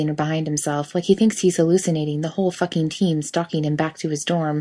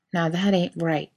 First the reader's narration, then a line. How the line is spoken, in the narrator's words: Jerry mumbles